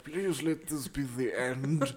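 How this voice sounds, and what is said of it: Imitates another person's voice. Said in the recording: “That was an excellent impression.”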